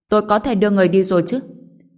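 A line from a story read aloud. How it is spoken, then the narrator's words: Scoffing old man. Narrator (Vietnamese): Ông lão cười khẩy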